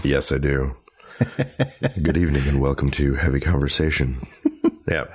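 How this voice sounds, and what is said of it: Much lower, deep voice. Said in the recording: “You sound a little... ... my voice is much lower. I have a little bit of a cold. ... You got the Barry White voice going. ... It's NPR now.”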